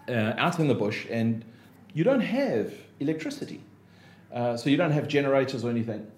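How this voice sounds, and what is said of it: South African accent. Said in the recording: “you can hear by my accent, I'm not from here. So coming from South Africa”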